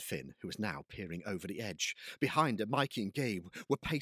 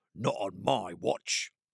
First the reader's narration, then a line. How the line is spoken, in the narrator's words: growled Mikey